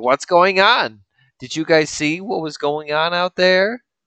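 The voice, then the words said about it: Put-on Jewish accent. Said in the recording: “I gave them a Jewish accent”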